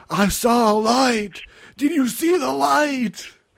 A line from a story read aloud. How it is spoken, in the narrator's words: Backlund yells out